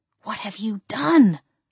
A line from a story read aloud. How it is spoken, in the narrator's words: I hissed